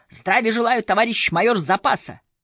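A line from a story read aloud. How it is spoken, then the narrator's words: Shouted. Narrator (Russian): он кричал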